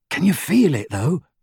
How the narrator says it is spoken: Ron asked in a hushed voice

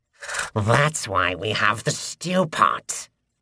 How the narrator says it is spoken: the cleaver hobgoblin cackled

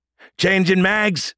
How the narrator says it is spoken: Sergeant Harmon shouted

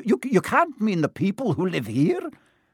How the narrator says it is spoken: cried Professor McGonagall, jumping to her feet

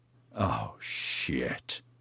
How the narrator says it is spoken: Edyard growled

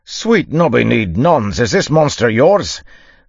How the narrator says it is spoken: the dwarf yelled

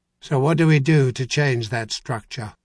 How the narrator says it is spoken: Clintan demanded flatly

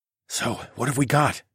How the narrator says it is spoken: whispered

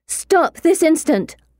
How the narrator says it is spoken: I shout

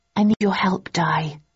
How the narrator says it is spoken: I said softly

